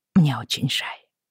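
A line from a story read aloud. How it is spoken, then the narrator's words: Quiet. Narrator (Russian): тихо сказала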